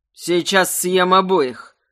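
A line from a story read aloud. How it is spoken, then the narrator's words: Menacing grumble. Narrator (Russian): грозно буркнул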